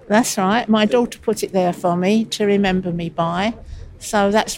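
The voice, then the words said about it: Strong Cockney accent. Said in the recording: “my awful Cockney accent... It comes over so Cockney on here, it does really.”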